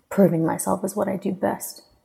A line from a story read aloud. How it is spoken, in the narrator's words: growled